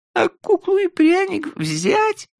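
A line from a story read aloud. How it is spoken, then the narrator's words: Laughing through tears. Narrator (Russian): спросила Флори, смеясь сквозь слезы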